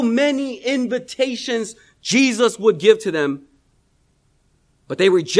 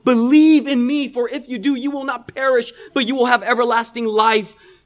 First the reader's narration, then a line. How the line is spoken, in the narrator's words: Time and time again, Jesus would plead with their souls